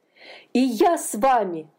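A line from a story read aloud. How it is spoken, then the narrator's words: Exclamation. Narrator (Russian): воскликнул он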